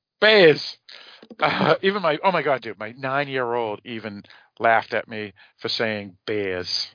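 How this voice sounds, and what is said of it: Boston accent. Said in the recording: “it's a Boston important. Accent. But she does understand Boston accents.”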